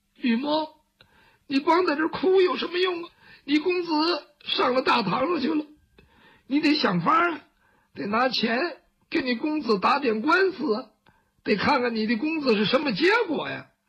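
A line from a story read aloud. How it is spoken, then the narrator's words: Crying, talking to himself. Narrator (Chinese): 雨墨哭着哭着自个儿跟自个儿说话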